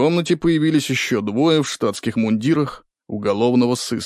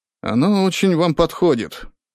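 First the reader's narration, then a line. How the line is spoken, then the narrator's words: Sighing man. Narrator (Russian): вздохнул мужчина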